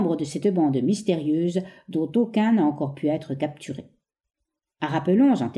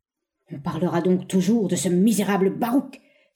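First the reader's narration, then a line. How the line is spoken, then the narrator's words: Despairing cry. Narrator (French): s'écria-t-il avec désespoir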